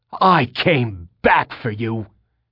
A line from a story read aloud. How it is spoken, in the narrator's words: he screamed so loudly